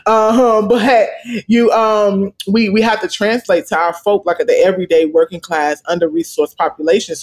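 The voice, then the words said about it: Slight regional accent. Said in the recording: “I'm quite sure folks can hear my little accent now”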